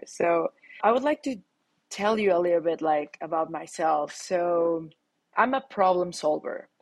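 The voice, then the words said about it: Latin American accented English. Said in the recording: “weird words or weird pronunciations ... the accent of a Latin person talking here”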